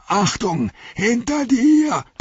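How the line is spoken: Roared. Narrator (German): brüllte

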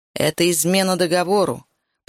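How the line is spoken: Growling. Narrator (Russian): прорычал он

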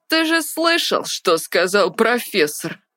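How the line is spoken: Snide, gloating interruption. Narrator (Russian): Ехидно перебил его Антуан Ричи, наслаждаясь своим маленьким триумфом

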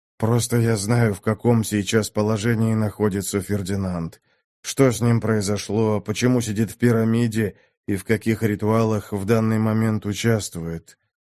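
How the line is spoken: Exhausted, lifeless voice. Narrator (Russian): ответил Минош безумно усталым и каким-то безжизненным голосом

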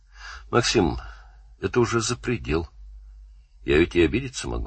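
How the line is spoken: Quiet. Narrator (Russian): сказал тихо

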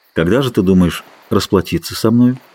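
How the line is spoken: Gentle, affectionate. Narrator (Russian): Он проговорил это даже ласково

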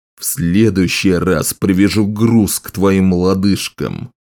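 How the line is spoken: Growling threat. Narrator (Russian): прорычал скорбь

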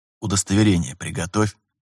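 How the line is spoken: Whisper. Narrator (Russian): шепнул Терентьев Виталию

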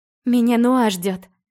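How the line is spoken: Breathless exhale. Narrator (Russian): Выдохнула я

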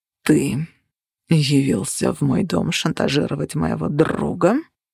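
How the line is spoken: Growling. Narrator (Russian): прорычал Цепиш

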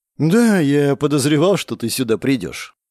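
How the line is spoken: Sigh. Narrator (Russian): вздохнул я

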